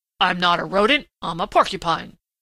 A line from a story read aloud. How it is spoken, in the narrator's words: grunted Prickly Porky indignantly